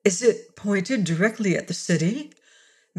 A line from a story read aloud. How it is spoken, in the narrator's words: Mara asked anxiously